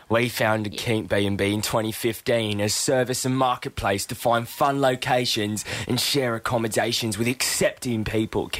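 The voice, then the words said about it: Put-on British Cockney accent. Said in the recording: “I'll just do an Australia accent. ... I reckon she's British. ... Nah, dirtier, like Cockney. ... Nah, go more dirty”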